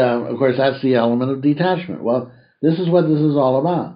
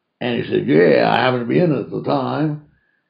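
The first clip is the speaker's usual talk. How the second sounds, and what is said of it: Imitates a drunk man's voice. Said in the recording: “That's my best drunken imitation.”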